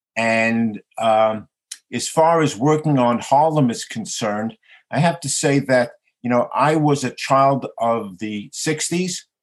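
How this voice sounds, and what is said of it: Bronx New York accent. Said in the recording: “you can immediately hear from my Bronx dialect that I am a New York boy”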